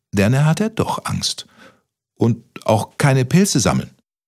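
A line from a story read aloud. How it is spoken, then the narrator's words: Stammered. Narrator (German): stotterte Kaspermütze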